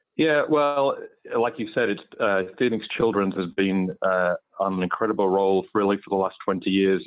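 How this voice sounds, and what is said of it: English accent with slight Southern hints. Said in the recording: “the English accent ... I assume it's truly a real accent ... I try to keep that English accent up for you today ... there's a bit of Southern hiding in there as well”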